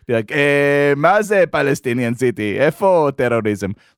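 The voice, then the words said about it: Put-on Israeli accent. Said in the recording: “It's you in your, like, Shlomo accent. Yeah, like that.”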